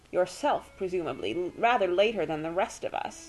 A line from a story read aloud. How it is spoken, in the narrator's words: Tess told him coldly